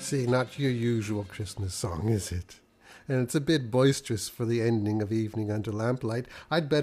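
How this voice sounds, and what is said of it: Usual voice. Nothing is said of it.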